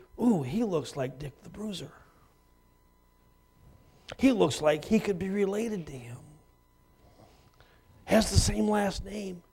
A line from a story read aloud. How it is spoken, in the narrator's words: Affless, one of the guys kind of whispered